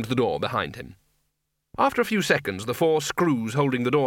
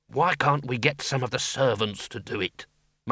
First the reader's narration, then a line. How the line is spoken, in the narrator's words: muttered the senior wrangler